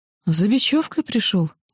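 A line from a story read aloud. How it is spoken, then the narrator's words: Uncertain babbling. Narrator (Russian): пролепетал кто-то неуверенный моим голосом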